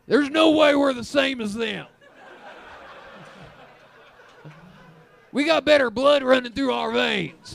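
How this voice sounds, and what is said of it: Mocking macho Calgary man voice. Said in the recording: “That's my impression of you guys ... that's me as a Calgary manly man.”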